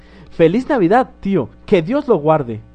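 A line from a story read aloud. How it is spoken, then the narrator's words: Cheerful exclamation. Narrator (Spanish): exclamó una alegre voz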